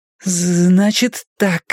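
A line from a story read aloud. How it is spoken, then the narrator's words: Slight stutter. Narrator (Russian): я слегка заикалась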